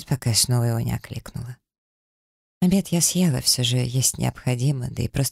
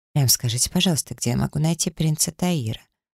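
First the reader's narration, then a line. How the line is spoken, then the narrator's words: Displeased tone. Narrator (Russian): отвечает недовольным тоном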